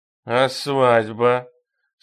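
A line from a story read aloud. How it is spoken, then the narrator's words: King's drunken slurred question. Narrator (Russian): совершенно пьяным голосом спросил бонжурский король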